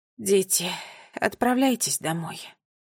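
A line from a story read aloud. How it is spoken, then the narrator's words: Tired voice. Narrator (Russian): устало сказала она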